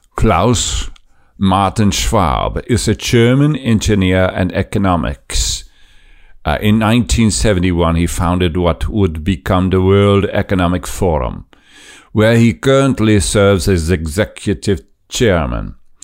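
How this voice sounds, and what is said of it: Klaus Schwab impression, German accent. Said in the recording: “Let me see if I can get his articulation right. It's German, and most likely Nazi Germany. So let's see if we can copy his Nazi accent.”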